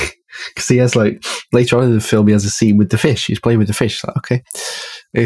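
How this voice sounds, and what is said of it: Usual voice. Nothing is said of it.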